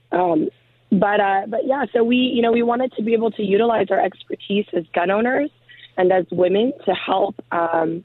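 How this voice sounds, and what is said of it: Hoarse, nearly lost voice. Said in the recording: “sorry about my voice. I'm uh, getting over a cold, and I've just completely lost my voice.”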